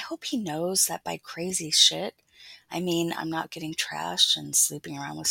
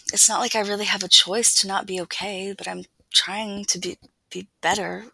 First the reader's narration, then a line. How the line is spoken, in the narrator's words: stutter